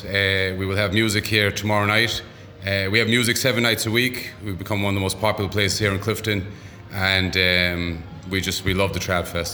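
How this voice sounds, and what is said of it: Mixed Boston and Irish accent. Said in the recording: “I'm hearing a mixture between Boston and Connemara. It's a strange accent.”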